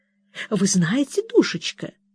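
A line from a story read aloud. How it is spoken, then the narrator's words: Mysterious close whisper. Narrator (Russian): зашептала мисс Флайт, приблизив губы к самому моему уху и принимая в высшей степени таинственный вид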